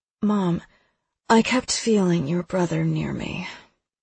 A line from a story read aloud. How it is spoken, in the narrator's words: she says with a sigh